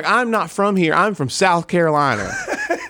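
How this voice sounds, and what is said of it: Exaggerated South Carolina accent. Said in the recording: “let her know how South Carolina I am. So I lay it on thick ... I want to hear the accent.”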